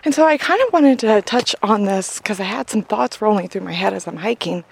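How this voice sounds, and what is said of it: Out of breath, panting speech. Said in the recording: “forgive my out of breath”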